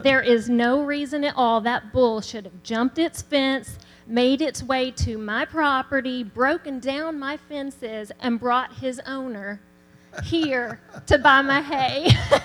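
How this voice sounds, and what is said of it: Southern accent. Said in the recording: “the Southern accent ... you don't always have that accent”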